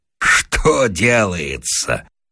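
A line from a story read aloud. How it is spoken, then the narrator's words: Bursting laughter. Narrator (Russian): расхохотался Вася, зажмурив глаза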